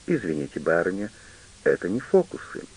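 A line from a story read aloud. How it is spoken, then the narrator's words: Calm statement. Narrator (Russian): спокойно заявляет Губерт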